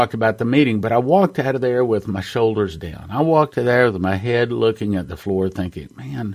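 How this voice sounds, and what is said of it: Usual voice. Nothing is said of it.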